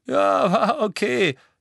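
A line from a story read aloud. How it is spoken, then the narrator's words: Giggling. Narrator (German): kicherte Dean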